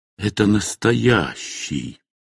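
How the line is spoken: Whispered. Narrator (Russian): он прошептал

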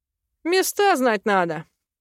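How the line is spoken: Chuckling. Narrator (Russian): хохотнул наш общий друг

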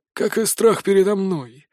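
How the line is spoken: Snorted. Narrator (Russian): хмыкнул Мор

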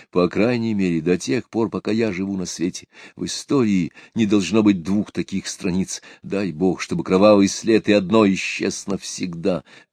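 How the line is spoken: Trembling voice. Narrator (Russian): прибавил он дрожащим голосом

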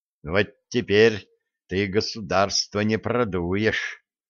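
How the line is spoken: Satisfied young man's mutter. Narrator (Russian): удовлетворенно пробурчал юноша

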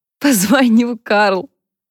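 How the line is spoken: Laughing. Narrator (Russian): засмеялась Харпер

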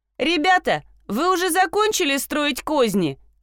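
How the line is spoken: Shouting. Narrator (Russian): крикнула

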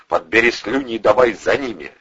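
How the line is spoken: Barked. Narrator (Russian): рявкнул напарнику Вардюк

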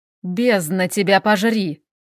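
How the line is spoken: Mental growl. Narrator (Russian): мысленно рыкнул Хел

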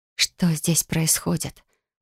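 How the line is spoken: Whisper into darkness. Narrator (Russian): прошептала я в темноту

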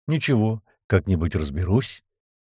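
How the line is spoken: Sad smiling young man. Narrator (Russian): Парень грустно улыбнулся

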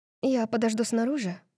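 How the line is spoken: Whisper. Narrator (Russian): прошептала она

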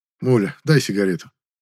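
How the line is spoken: Tired voice. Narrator (Russian): сказал усталым голосом

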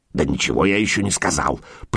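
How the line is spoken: Grumbling. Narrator (Russian): проворчал лесовик

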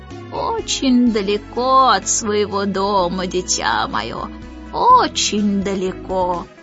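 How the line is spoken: Great-grandfather's creaky voice. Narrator (Russian): проскрипел прадедушка

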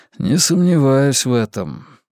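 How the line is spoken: Tired remark. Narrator (Russian): устало заметил я

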